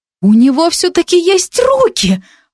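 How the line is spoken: Exclamation. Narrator (Russian): воскликнула я

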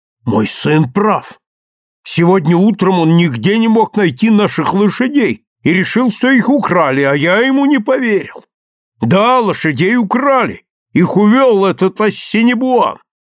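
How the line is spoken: Father exclaiming. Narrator (Russian): отец воскликнул

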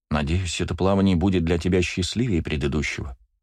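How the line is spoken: Quiet. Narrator (Russian): тихо сказала Сенума

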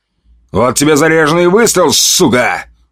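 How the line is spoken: Shouted. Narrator (Russian): выкрикнул

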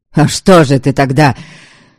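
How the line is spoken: Heated exclamation. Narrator (Russian): Горячо воскликнул Вольга, он осекся

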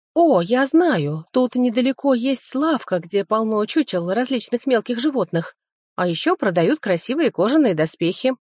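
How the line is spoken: Joyful little boy. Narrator (Russian): радостно сообщил мой младший братик

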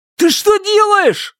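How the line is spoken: Desperate screaming. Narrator (Russian): завопил хан, отчаянно сопротивляясь

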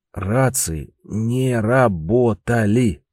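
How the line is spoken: Syllable by syllable, clenched teeth. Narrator (Russian): по слогам процедил сквозь зубы Трифон

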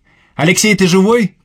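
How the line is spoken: Shouted through small window. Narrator (Russian): крикнул я в оконце

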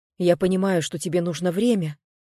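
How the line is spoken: Hurried. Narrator (Russian): продолжал он торопливо

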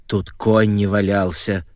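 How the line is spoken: Grumbling old woman. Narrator (Russian): ворчала бабушка

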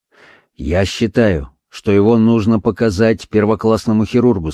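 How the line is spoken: Plain. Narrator (Russian): сказал я

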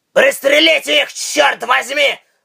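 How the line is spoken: Roaring. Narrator (Russian): взревел Тайкус

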